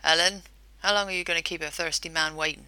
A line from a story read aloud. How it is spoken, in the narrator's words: He chuckled